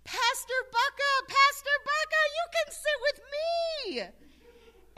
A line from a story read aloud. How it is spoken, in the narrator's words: his granddaughter, who was always the first to run up and sit right next to me during the children's time, saw me and she yelled